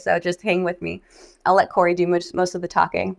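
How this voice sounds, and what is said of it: Sick, unwell-sounding voice. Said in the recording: “I'm sick... I sound terrible today”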